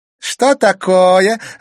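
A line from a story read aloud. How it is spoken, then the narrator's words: Loud laughter. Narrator (Russian): расхохоталась Клементина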